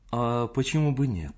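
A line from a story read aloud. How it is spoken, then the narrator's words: Calm low muffled voice. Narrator (Russian): возразила она спокойно и неожиданно низким глуховатым голосом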